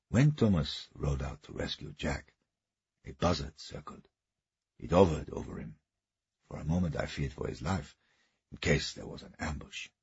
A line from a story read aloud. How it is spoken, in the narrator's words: he said quietly